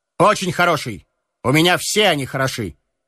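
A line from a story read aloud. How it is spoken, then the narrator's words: Self-assured tone. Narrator (Russian): ответил Стельковский своим обычным самоуверенным тоном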